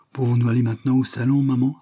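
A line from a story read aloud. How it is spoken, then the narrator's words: Exclaiming. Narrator (French): s'écria Lucie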